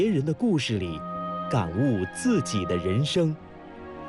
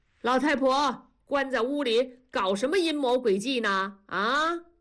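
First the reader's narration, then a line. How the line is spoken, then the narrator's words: Shouting from outside. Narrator (Chinese): 屋外，同志嚷嚷着说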